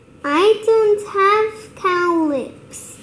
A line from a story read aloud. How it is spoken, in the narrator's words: shouted